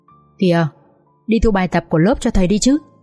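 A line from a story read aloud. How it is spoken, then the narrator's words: Soft reminder. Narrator (Vietnamese): Cậu bạn ngồi cạnh Vượng khẽ nhắc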